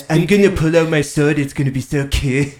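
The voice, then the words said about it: Cartman cartoon voice impression. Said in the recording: “Just doing a straight up Cartman impression.”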